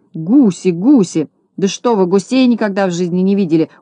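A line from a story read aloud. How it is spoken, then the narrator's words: Shouted right into ear. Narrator (Russian): закричал прямо в ухо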